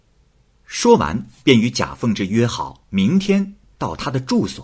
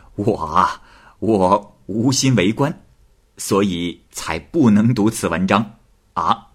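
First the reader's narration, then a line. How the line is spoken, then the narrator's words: Laughing. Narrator (Chinese): 郎秀才笑着说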